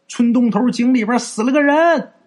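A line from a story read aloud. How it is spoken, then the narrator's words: Shouting. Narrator (Chinese): 有人喊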